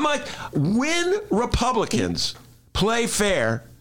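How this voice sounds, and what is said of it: Usual voice. Nothing is said of it.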